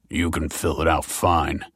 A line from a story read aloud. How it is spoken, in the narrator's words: grunted the officer